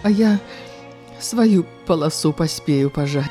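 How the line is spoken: Sighing. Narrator (Belarusian): уздыхнула Ганна

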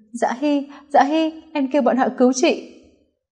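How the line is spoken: Sobbing, trembling voice. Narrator (Vietnamese): La Tịnh Uyển khóc sụt sùi, giọng nói run run

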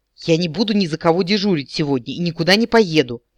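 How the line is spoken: Sharp angry bark. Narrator (Russian): рявкнул он

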